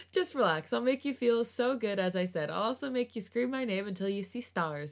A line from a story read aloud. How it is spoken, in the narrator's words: chuckled lightly